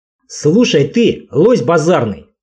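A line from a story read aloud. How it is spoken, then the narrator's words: Angry growl. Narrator (Russian): зло прорычал Олесь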